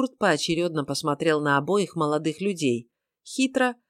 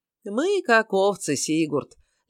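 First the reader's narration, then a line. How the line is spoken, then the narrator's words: Lazy drawl. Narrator (Russian): лениво протянул Лоример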